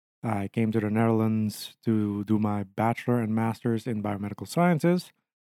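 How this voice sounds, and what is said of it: Aruban-accented English. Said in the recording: “my weird accent ... I'm from Aruba”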